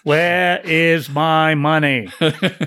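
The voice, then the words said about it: Kennedy-style impression, Mayor Quimby-like. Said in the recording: “I used to do a decent Kennedy impression. Now I'm just Mayor Quimby from The Simpsons.”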